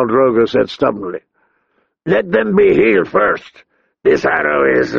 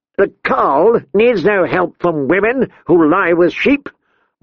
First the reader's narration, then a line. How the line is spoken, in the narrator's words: barked Kotho